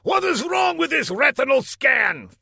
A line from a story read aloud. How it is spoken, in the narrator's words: thundered Laszlo